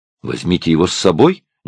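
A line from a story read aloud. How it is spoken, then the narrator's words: Somewhat irritated man. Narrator (Russian): несколько раздраженно ответил мужчина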